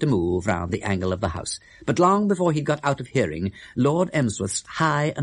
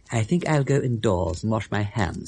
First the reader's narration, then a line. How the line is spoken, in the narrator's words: he said